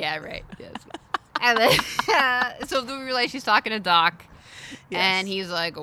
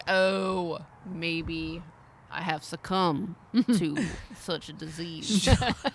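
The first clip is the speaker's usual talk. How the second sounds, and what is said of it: Impression of Doc. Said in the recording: “good Doc impersonation.”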